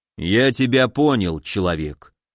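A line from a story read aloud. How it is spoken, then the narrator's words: Gloomy, big man. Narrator (Russian): мрачно сказал здоровяк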